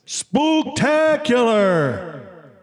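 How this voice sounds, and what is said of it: Spooky voice. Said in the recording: “really spooky voice”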